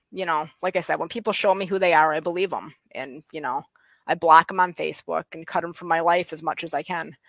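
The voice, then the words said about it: West Michigan accent, sing-song. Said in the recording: “it's a West Michigan accent ... I think it's more sing song ... my accent”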